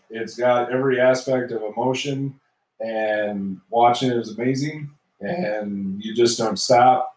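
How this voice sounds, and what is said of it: Choked up, voice cracking. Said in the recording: “getting choked up? ... I am. I'm crying. ... voice cracking”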